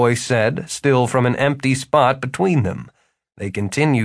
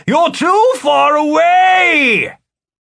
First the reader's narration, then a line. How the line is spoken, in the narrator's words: Philip yelled